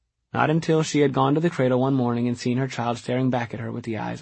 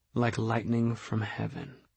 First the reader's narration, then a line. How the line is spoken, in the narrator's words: Magnus murmured into his drink